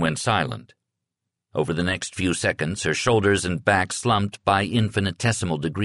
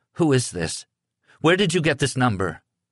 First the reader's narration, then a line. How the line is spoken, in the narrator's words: In a shaky voice, she said